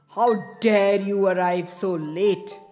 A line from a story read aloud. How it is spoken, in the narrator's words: he growled